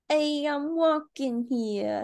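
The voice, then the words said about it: Put-on New York accent. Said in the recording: “can you do a New York accent?”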